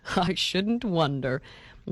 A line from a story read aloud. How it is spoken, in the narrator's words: laughed Mr